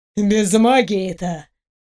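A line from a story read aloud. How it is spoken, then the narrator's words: Scoffing. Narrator (Russian): фыркнул колдун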